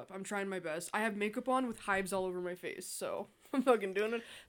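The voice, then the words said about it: Sick-sounding voice. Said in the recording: “And then I got sick ... if you can hear it in my voice”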